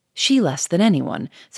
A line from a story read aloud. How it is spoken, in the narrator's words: said Gouchard quickly